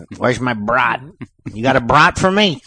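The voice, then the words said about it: Exaggerated Chicago accent. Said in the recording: “Chicago has an accent too... They got that fucking Polish thing going on there... that's a shitty accent.”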